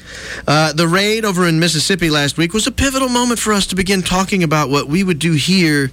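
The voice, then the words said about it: Millennial-style accent. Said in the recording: “You almost picture the millennial accent.”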